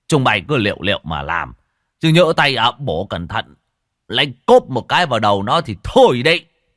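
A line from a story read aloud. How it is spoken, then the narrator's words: Booming voice. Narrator (Vietnamese): lão Tân giọng oang oang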